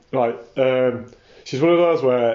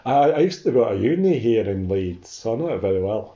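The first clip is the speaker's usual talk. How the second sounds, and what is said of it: Poor put-on Scottish accent. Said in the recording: “this is a terrible Scottish accent.”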